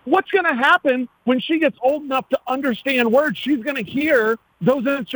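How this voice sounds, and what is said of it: Usual voice. Nothing is said of it.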